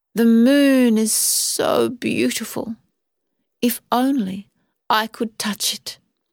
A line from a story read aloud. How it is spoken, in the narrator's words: sighed